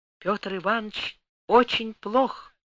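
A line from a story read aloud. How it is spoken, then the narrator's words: Barely audible whisper. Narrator (Russian): чуть слышным шепотом говорит она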